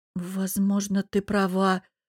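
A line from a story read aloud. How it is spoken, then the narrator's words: Mumbling. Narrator (Russian): промямлила я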